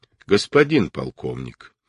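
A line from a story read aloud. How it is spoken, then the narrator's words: Formal tone. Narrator (Russian): официальным тоном произнес Кричко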